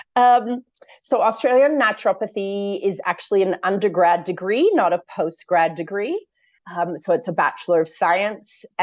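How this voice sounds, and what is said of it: Mixed American and Australian accent. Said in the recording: “if everybody's a bit confused about my accent, I'm actually American born... born and raised in San Francisco... spent almost all my adult life in Sydney, Australia”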